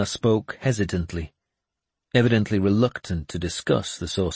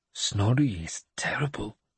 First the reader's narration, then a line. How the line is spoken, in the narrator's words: Ina said in a low voice